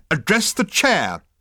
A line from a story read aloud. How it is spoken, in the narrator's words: snapped the management consultant